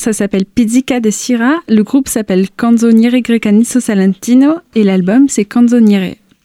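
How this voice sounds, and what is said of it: Italian accent speaking French. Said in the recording (French): “excusez mon accent italien”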